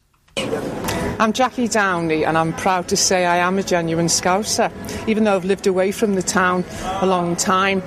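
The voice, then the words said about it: Natural Scouse accent. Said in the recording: “a normal Scouse voice ... a normal woman who's clearly got a Scouse accent”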